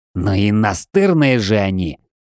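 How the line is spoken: Through gritted teeth. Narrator (Russian): процедил сквозь зубы Джей

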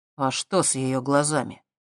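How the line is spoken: Quiet question. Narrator (Russian): тихо спросил Дэн

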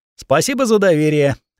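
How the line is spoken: Wry snort. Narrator (Russian): хмыкнул Ланс

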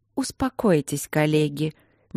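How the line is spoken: Soft murmuring woman. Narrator (Russian): Мягко прожурчала какая-то женщина

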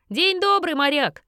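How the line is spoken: Shout. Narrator (Russian): закричала Кэт

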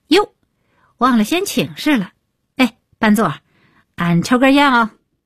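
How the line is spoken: Loud, quick. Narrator (Chinese): 李伟立刻高声道

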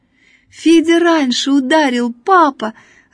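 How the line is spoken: Joyful shouting. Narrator (Russian): радостно кричала Надя

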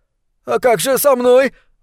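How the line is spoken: Shriek. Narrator (Russian): взвизгнул Талант

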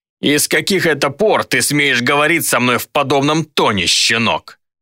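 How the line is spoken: Offended roar. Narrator (Russian): Взревел Руслан, которого отчего-то мои вежливые слова задели больше, чем грубость Гидеона

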